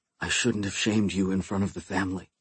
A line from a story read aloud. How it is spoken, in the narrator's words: I whispered through the door